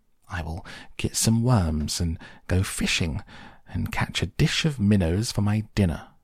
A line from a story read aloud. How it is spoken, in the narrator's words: said Mr